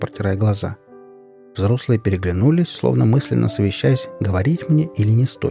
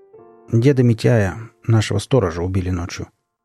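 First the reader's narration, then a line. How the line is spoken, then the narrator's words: Dull, lifeless voice. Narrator (Russian): потухшим голосом произнес отец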